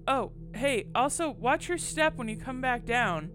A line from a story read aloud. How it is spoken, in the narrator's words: I shouted